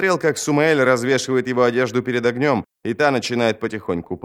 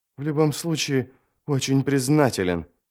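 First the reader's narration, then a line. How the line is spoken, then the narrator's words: Forced out, teeth chattering. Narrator (Russian): выдавил Ярви, стуча зубами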